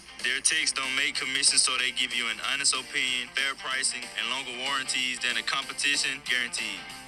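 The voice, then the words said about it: Louisiana accent. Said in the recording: “Louisiana accent”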